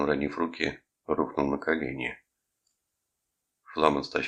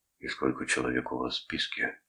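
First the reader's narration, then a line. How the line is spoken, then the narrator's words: Whisper. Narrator (Russian): прошептал он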